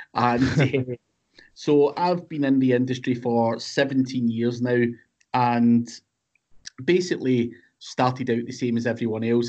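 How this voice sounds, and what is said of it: Scottish accent. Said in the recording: “I'm based in the UK, in Scotland, hence the funny accent.”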